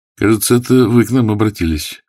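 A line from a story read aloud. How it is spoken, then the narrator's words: Dry remark. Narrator (Russian): сухо заметил Филипчук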